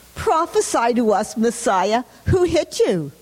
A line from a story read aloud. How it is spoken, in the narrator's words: mocking